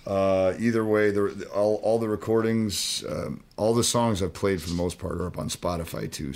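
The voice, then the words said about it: Slightly wrecked, hoarse voice. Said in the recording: “my voice is a little wrecked from the weekend still”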